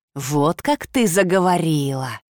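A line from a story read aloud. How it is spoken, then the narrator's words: Venomous hiss. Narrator (Russian): ядовито прошипел маг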